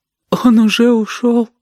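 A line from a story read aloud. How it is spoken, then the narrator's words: Tearful question. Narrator (Russian): спросила она сквозь слезы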